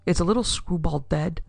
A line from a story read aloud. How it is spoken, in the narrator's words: he asked anxiously